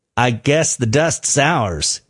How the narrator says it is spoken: says Beaver

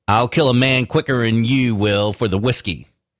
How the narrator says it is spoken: says Grant, as he sneers at the kid

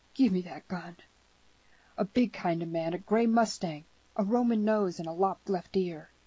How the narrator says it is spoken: added, half sobbing

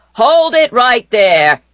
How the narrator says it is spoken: bellowed Barney

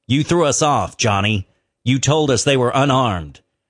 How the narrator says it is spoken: Wyatt Earp, who coldly told him

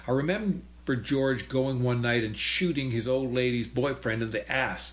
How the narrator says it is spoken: laughed Huey Moe

